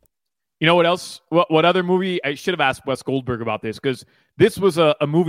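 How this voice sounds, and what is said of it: Usual voice. Nothing is said of it.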